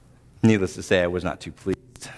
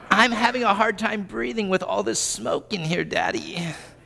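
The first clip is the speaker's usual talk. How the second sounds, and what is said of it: Pitiful sickly child voice. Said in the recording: “his best Tiny Tim impression”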